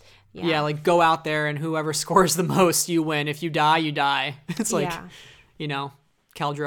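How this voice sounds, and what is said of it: Usual voice. Nothing is said of it.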